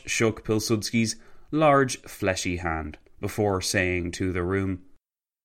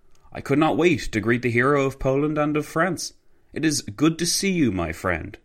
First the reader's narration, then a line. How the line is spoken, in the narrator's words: Pilsudski exclaimed